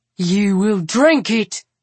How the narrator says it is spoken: he barks into her face

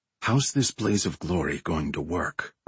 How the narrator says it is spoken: Remy whispered

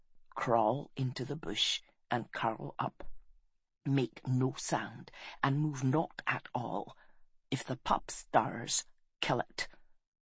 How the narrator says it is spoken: Putting his face close to Galen's ear, he whispered

